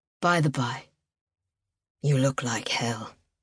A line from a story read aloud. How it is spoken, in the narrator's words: he murmured